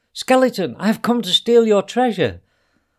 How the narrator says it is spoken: Ahmed shouted at him

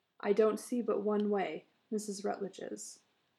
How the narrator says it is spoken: he said in a low, incisive tone

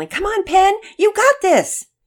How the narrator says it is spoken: her teammates behind her yelling

